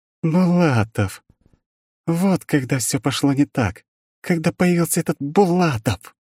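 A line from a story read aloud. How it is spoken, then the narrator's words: Bitter through gritted teeth. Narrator (Russian): Процедила она сквозь зубы, осознав, в ком корень всех зол и ее бед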